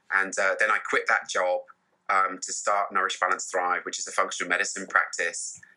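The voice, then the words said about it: British accent. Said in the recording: “You've got a nice accent. ... the British accent”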